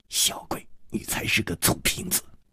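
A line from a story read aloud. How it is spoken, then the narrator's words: Quiet, biting lips. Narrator (Chinese): 李红秀咬着嘴唇小声地说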